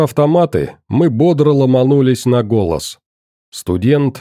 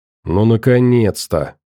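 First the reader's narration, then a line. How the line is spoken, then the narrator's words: Tired. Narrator (Russian): устало отозвался Никитос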